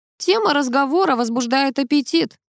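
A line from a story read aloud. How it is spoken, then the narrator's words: Wry snort. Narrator (Russian): хмыкнул Собачкин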